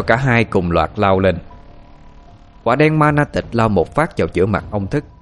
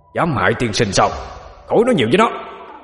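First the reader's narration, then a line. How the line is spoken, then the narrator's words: Loud shout in unison. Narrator (Vietnamese): Ma Na Tịch và Hỏa Thiên Di đồng thanh hét lớn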